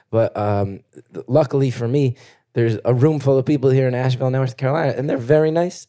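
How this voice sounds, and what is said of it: Hoarse, fading voice. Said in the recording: “You can hear I'm losing my voice a little bit”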